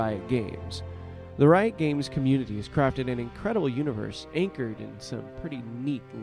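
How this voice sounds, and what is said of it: Usual voice. Nothing is said of it.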